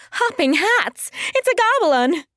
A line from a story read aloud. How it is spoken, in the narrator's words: cried